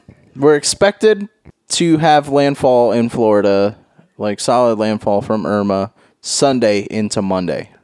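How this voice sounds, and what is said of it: News anchor voice. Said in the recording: “News Voice.”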